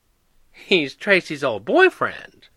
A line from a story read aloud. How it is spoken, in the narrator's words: Granny cackled